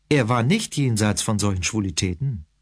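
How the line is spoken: Plain. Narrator (German): sagte ich

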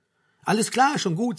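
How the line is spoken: Soothing voice. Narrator (German): sagte Frank mit beruhigender Stimme

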